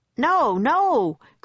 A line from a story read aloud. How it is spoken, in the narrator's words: cried Jack